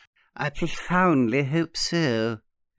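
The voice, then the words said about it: Particularly suave voice. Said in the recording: “in a particularly suave voice”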